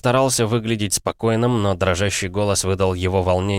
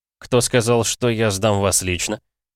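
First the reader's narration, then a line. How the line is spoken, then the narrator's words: Mocking tone. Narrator (Russian): Ответил тем же насмешливым тоном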